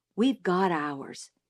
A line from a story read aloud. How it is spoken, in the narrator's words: he whispered